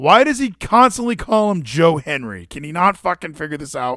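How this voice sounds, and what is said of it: Usual voice. Nothing is said of it.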